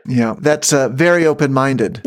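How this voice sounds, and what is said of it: Sarcastic tone. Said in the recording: “hear the sarcasm in my voice”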